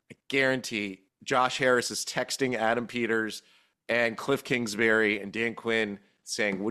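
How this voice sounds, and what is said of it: Usual voice. Nothing is said of it.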